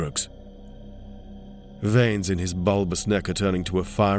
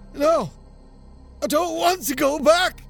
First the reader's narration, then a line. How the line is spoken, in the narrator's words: screams